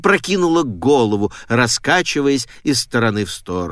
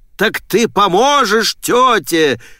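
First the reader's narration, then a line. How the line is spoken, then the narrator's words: Shouted. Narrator (Russian): прокричал отец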